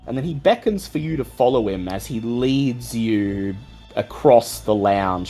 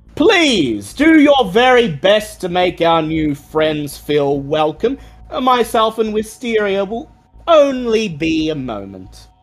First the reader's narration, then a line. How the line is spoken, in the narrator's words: he loudly booms